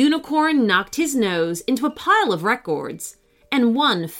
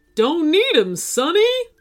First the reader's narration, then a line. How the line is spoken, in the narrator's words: the unicorn DJ cried